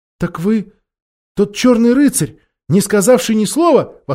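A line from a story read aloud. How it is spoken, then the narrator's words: Exclaiming. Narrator (Russian): воскликнула Джилл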